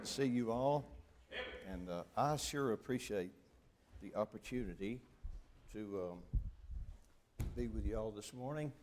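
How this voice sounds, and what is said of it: Noticeable Southern US accent. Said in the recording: “I live almost as far south as you can live. Almost. 3 hours we'd be at the Gulf. ... my accent might be noticeable”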